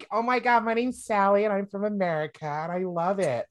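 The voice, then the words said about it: Girlish high-pitched American accent. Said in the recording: “I can't do a deep American accent or attempt a deep American accent because the only American that I can think of is like a proper, it's like a girlish proper”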